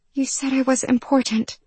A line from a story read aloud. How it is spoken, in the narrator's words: she whispered